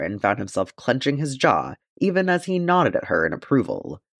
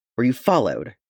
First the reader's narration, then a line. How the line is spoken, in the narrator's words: Eowyn said, her tone harsh